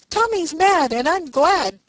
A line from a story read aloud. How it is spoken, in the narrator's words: cried Ned